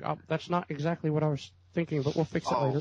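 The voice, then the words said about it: Imitates another person's voice. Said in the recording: “George Lucas answers questions ... that impression”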